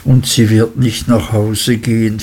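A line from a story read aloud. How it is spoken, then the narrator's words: Sad interjection. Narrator (German): fiel er ein traurig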